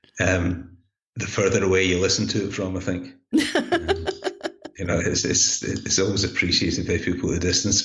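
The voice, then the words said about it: Scottish accent. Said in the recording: “your lovely Scottish accent ... you are practically Rob Roy”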